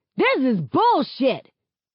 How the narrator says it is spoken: A couple of folks yell out, including one person who's bold enough to shout

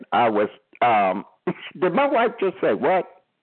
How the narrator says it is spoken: I said, I laughed

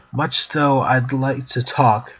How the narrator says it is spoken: Mac said, a father's growl suddenly coming out of his voice

